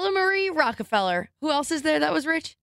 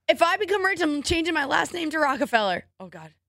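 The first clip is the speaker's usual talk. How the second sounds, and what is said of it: Voice cracking mid-sentence. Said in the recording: “Did your voice crack? ... You're tired and you've been talking for 6 hours.”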